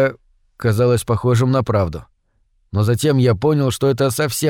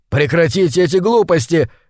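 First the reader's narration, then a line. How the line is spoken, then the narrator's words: Shouting. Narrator (Russian): крикнул я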